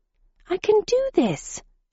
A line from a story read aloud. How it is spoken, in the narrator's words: exclaimed